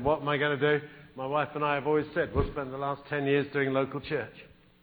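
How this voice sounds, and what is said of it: British English accent. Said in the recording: “he's really got an accent ... Now you do. Now you definitely do ... It's your country. But it's my language.”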